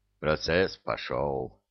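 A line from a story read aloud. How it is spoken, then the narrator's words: Muttered. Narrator (Russian): пробормотал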